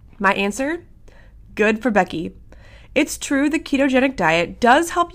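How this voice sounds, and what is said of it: Usual voice. Nothing is said of it.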